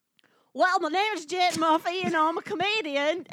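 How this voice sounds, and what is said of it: Attempted Scottish accent, mushy. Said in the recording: “I'll work on my Scottish accent ... Is that drunk Scottish mashed potato mouth? ... I'm going to tell my jokes in a Scottish accent.”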